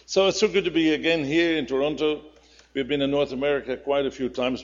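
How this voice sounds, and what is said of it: Dutch accent. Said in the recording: “you have to bear with my Dutch accent. I can't help it.”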